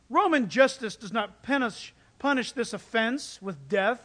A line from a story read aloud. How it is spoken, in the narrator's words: I said